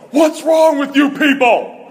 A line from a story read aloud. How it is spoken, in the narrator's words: he yells into the microphone